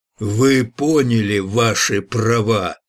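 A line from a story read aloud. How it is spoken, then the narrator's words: Roaring policeman. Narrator (Russian): проревел коп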